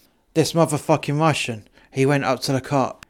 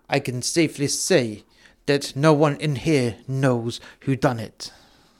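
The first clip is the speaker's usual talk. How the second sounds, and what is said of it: Poor put-on Russian accent. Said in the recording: “You have to excuse my Russian accent, by the way, because I'm terrible at accents.”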